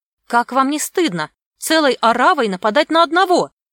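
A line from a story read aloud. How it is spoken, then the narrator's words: Indignant. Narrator (Russian): возмущенно продолжала она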